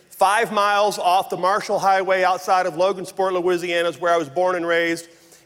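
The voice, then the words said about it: Rural North Louisiana Southern accent. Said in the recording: “you may know this from my accent, but I grew up in very rural North Louisiana”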